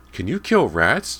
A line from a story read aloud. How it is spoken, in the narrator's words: James piped up